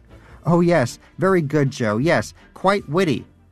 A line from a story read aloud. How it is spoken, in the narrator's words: shouted Danish